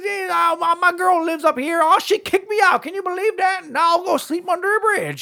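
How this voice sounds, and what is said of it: Poorly done character voice impression. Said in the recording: “That was a terrible impression,”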